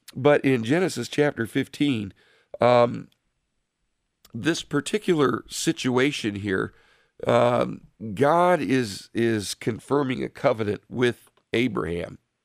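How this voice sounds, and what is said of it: Strained, hoarse voice. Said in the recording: “I was starting to lose my voice”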